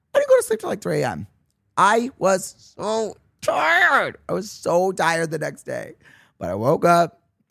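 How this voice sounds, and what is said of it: Hoarse, worn-out voice. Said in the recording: “That's probably why my voice is gone.”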